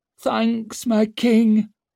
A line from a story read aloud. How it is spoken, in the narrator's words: croaked out Dancer